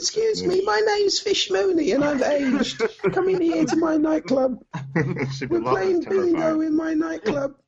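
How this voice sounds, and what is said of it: Old woman's voice, London accent. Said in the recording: “You're gonna sound like a granny. ... a London accent”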